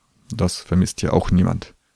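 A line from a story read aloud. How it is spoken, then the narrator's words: Mumbled under breath. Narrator (German): murmelte er in seinen Bart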